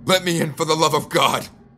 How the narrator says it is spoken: I shouted

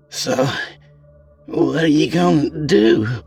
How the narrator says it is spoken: Tammy asked hesitantly

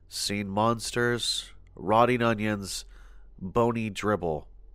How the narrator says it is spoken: talking softly to himself, saying things like

